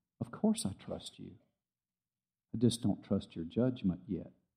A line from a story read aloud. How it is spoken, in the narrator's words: He very kindly and gently said